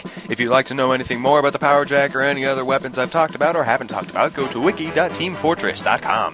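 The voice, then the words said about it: Smooth radio announcer voice. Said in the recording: “Got a good radio voice.”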